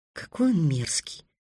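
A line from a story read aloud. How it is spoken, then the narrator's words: Whispered. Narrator (Russian): прошептала Тиана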